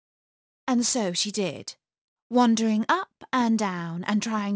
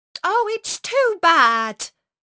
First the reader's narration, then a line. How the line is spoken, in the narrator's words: she cried